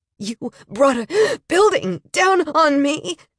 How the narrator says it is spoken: she wheezed

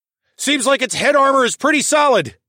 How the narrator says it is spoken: I yelled

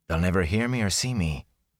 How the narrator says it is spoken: he whispered to himself

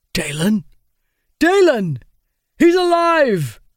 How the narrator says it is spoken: the Bringer cried

